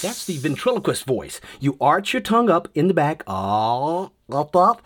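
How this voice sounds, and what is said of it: Usual voice. Nothing is said of it.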